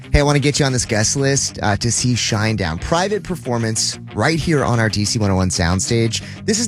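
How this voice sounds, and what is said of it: Usual voice. Nothing is said of it.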